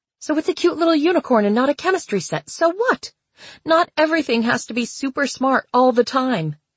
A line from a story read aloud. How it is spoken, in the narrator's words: she had cried